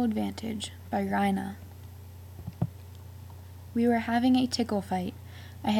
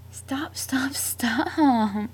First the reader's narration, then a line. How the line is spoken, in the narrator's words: she begged